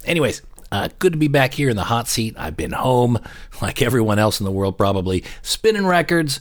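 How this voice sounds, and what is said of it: Voice with a cold, sore throat. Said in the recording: “I have a bit of a cold. ... I just cannot shake this cough. Bit of a sore throat here.”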